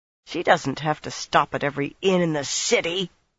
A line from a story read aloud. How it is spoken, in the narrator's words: Nynaeve growled